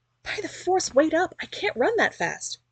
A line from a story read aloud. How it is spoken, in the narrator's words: yelped behind her